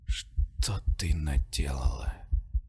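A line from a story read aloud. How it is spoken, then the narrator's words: Whisper. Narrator (Russian): Прошептал я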